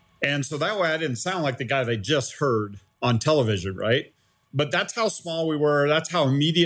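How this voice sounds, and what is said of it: Usual voice. Nothing is said of it.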